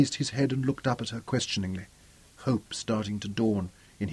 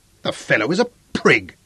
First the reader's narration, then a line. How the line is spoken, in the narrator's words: said Zuga firmly